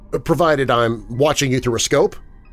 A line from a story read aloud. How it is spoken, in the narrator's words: I added hastily